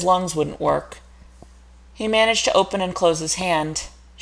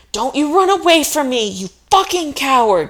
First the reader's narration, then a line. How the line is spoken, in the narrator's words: she screamed